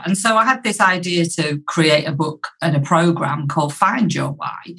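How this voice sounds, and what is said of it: Yorkshire English accent. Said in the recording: “the Yorkshire accent”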